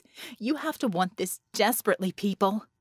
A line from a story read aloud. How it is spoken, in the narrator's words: Vicky said, her voice tense with urgency